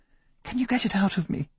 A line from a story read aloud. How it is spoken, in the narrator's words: she whispered, clutching her head, battered by the storms of alien memories